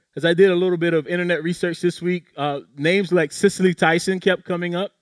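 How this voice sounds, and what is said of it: South Carolina accent. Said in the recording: “my South Carolina accent, it betrays me”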